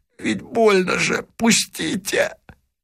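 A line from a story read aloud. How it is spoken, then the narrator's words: Hoarse, choked. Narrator (Russian): ворот, видимо, душил его, он хрипло сказал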